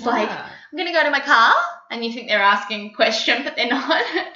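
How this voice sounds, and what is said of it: Australian accent, upward intonation. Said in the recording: “My Aussie friends say I have the New York twang, but I'm fighting it. I want to keep my Aussie accent ... it sounds good Australian ... The Aussies are always with the upward intonations”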